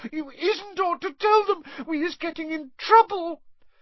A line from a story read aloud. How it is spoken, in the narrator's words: sobbed Winky